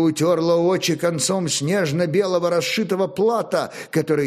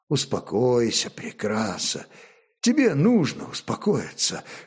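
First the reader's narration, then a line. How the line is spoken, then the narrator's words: Soft whisper. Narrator (Russian): шептал тихо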